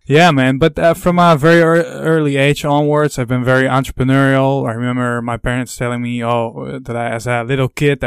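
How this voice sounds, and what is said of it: Dutch accent, somewhat American-sounding. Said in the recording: “I'm from the Netherlands, you i'm very curious if people would recognize the accent you know in europe they do really can tell the accent but uh, a lot of people think i'm an american”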